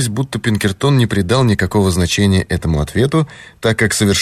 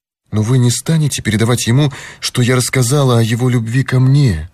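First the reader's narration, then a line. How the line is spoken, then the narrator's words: Frightened question. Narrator (Russian): испуганно спросила она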